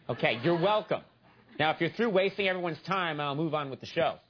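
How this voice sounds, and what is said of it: Usual voice. Nothing is said of it.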